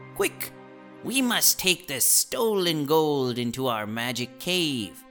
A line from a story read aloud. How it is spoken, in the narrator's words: The leader of the thieves called out